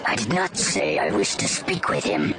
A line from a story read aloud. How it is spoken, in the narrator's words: he hissed